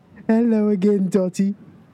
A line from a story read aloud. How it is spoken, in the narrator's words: he laughed